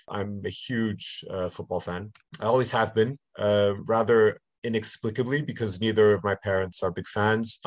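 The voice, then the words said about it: Slight North American accent. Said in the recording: “my slight North American accent”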